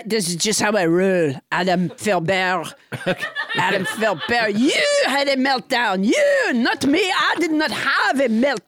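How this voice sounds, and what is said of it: Put-on French accent, unsteady. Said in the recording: “French Trump ... Monsieur President, why does it take you like three or four tries to perfect your accent in any given sentence?”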